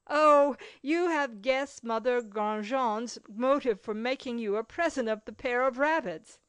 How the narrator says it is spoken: cried out laughingly

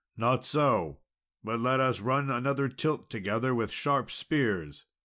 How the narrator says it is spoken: the knight cried out

